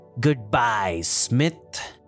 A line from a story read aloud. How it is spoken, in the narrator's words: Ratcliffe said with a sneer